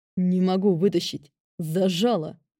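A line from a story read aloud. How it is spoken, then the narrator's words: Growling king. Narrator (Russian): рыкнул король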